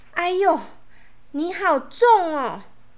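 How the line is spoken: Loud involuntary cry. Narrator (Chinese): 安安忍不住大叫了起来

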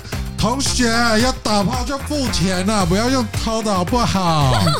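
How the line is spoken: Loud shouting. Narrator (Chinese): 我一边结账一边大喊

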